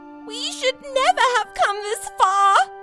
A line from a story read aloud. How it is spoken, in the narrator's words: cried Lily